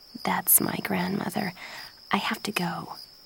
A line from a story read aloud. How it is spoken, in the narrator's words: Jen said quietly